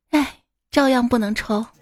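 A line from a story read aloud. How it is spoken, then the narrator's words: Sighing, resigned. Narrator (Chinese): 叹气道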